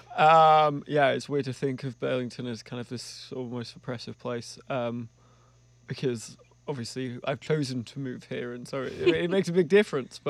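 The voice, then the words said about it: Non-local accent. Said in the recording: “I'm a transplant, as you may have gathered by the accent.”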